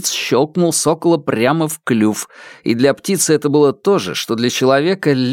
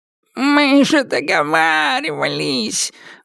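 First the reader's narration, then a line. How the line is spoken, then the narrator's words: Nasal, plaintive exclamation. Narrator (Russian): гнусавым, жалобным тоном воскликнул он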